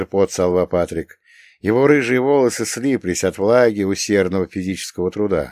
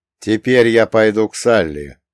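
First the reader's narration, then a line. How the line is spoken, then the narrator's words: Cold. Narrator (Russian): холодно сказал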